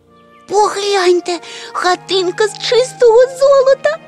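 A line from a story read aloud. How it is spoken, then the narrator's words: Tiny creature's delighted exclamation. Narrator (Ukrainian): захоплено вигукнуло крихітне звірятко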